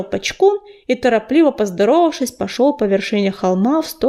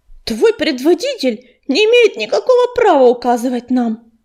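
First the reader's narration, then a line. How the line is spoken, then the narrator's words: Indignant reply. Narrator (Russian): возмущенно ответила Мотылинка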